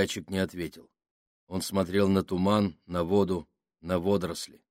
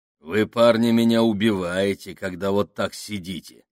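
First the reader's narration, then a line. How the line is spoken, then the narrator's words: Grumbling. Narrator (Russian): проворчал Сакс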